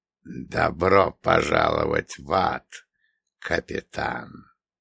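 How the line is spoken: Hiss. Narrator (Russian): прошипел

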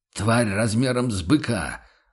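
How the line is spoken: Snapping retort. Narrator (Russian): огрызнулся рыцарь

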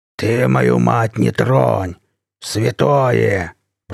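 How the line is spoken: Growled. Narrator (Russian): прорычал водила

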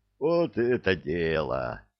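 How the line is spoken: Joyful group clamor. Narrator (Russian): радостно загомонила группа захвата

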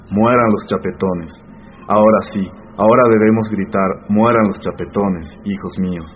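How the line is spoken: Old woman's ringing exclamation. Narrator (Spanish): exclamó la anciana con voz vibrante que dominaba las de los demás

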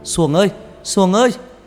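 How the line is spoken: Loud shout while running. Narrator (Vietnamese): Thằng Bảy mau mau chạy ra hét lớn

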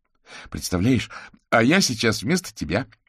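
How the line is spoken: Joyful announcement. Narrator (Russian): радостно сообщил Кузя

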